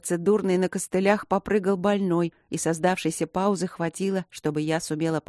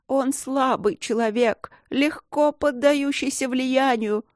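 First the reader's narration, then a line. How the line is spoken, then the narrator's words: Sobbing wife. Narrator (Russian): рыдала жена Фейменса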